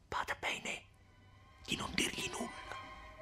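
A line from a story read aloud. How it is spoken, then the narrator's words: Whispered in her ear. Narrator (Italian): sussurrare all'orecchio di Lucia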